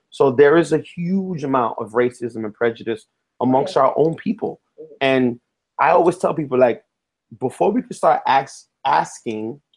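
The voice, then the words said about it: Bronx New York accent. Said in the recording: “Saying axing. ... I have to correct my Bronx accent.”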